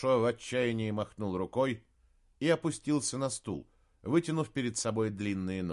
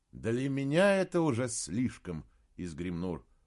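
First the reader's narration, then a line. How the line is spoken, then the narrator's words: Tired. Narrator (Russian): устало сказал принц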